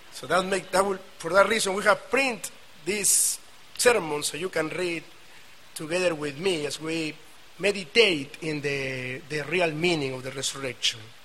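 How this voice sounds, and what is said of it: South American Spanish accent. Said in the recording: “I have the real southern accent from South America”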